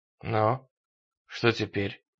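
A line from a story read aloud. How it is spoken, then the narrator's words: Hoarse question. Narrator (Russian): хрипло спросил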